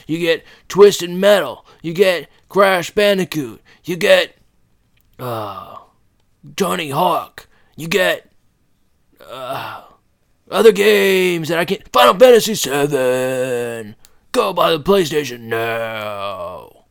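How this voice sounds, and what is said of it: Strained PlayStation commercial voice. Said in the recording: “My throat hurts now because I did a PlayStation voice... It hurt.”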